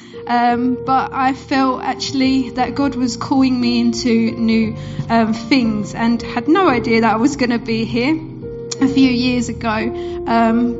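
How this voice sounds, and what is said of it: Essex English accent. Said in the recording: “you might hear in my accent, I'm not originally from Suffolk. I'm from Essex”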